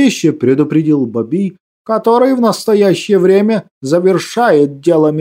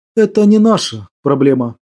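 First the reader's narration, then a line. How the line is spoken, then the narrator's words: Calm remark. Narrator (Russian): спокойно заметил Григор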